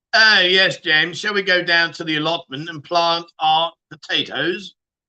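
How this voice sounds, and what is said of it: Put-on posh English accent. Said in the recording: “He can do the posh accent”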